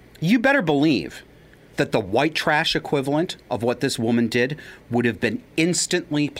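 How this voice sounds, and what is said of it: Usual voice. Nothing is said of it.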